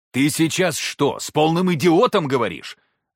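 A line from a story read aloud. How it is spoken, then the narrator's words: Loud bark. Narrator (Russian): Рявкнул так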